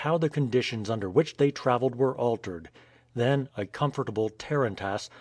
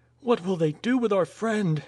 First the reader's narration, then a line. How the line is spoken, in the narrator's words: exclaimed the girl